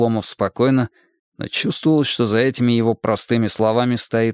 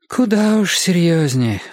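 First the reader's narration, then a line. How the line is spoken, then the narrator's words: Sigh. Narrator (Russian): вздохнула Мария Семеновна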